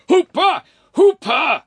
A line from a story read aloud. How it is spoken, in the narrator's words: screamed the furious peer, craning his neck in horror, for the girl seemed to be trying to kiss him